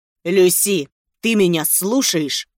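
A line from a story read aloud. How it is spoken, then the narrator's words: Barked, loud. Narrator (Russian): рявкнул Феликс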